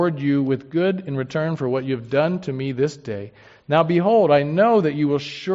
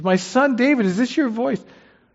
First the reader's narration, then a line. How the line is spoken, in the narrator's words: Saul lifted up his voice and wept